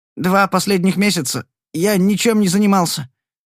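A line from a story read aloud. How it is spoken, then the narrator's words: Stammering. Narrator (Russian): запинаясь, ответил он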